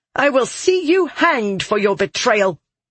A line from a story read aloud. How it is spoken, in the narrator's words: Aura spat